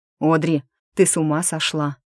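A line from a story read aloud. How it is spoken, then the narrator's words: Desperate near-growl. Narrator (Russian): С каким-то отчаянием почти прорычал Ричард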